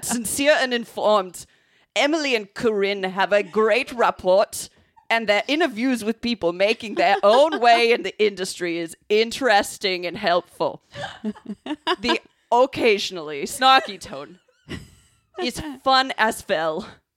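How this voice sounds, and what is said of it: Put-on German accent. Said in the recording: “I'm really glad we chose German. ... I think that was like the best one.”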